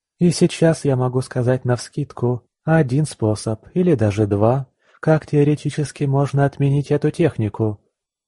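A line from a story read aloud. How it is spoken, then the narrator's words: Said more calmly. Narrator (Russian): уже более спокойно сказала Наталья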